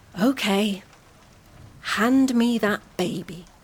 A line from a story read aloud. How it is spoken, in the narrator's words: she sighed and said